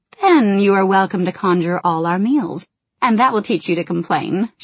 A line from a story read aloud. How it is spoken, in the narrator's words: she said, chiding him teasingly